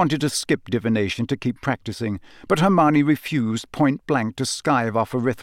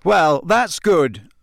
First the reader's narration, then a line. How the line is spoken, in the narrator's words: said Harry loudly, his temper getting the better of him